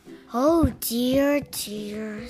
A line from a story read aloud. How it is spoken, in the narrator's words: sighed Bear